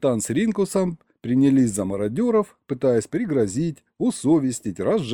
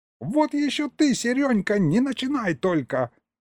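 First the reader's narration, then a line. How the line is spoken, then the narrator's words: Yelling. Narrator (Russian): завопил Егорыч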